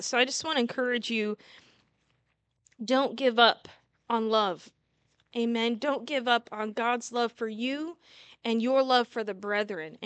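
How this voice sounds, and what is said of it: Strained, failing voice. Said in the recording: “my voice is giving out today”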